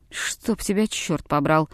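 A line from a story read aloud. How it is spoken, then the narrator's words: Quiet curse. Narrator (Russian): тихо проговорил француз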